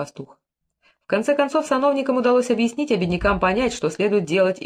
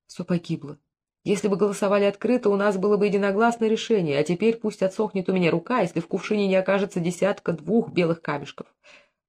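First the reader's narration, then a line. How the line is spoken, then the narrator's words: Whisper. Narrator (Russian): главный казначей шептал фараону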